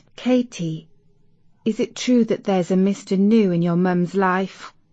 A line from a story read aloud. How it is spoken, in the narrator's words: her best friend Isis whispered